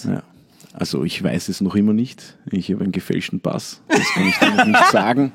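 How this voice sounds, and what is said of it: Viennese Austrian German accent. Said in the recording (German): “mit seinem Wiener Dialekt ... Ein Österreicher ... du klingst halt sympathisch ... Und vor allem gebildet”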